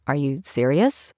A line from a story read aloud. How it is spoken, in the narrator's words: mumbling